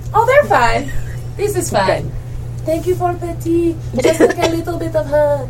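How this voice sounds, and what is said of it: Wandering put-on accent. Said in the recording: “This accent has gone somewhere near.”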